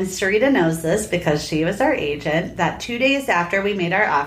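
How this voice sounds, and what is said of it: Usual voice. Nothing is said of it.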